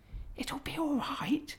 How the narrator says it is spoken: whispered Peter in reply

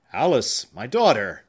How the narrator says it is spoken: exclaimed Mr

